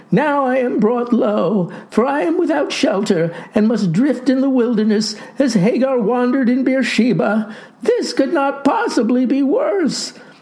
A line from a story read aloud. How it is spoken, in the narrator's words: wailed the boy